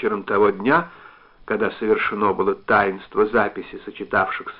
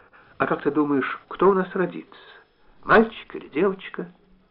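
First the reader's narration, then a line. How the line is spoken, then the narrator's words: Very quiet question. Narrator (Russian): совсем тихо спросила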